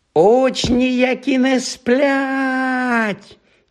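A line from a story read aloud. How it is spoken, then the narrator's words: Siren-like shriek. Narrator (Ukrainian): заверещав Півз не згірше сирени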